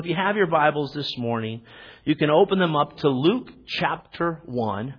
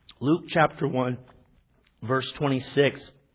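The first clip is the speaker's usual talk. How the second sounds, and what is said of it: Voice cracks. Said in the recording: “My voice is cracking there.”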